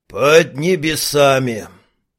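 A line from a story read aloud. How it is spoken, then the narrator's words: Dreamy sigh. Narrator (Russian): Алхимик мечтательно вздохнул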